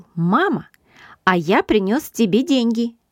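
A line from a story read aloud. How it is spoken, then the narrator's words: Joyful announcement. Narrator (Russian): он радостно сообщил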